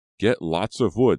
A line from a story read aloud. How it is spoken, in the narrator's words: the advisor shouted